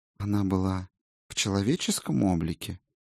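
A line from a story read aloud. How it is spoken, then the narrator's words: Gentle inquiry. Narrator (Russian): мягко осведомился целитель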